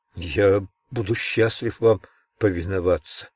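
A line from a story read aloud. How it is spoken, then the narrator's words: Quiet, barely audible, heart pounding. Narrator (Russian): тихо, едва внятно ответил Генри, сердце которого продолжало колотиться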